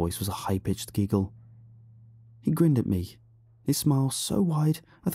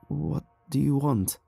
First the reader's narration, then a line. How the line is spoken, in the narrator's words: My voice was hoarse and shaky from years without use, but I tried to sound as firm as I could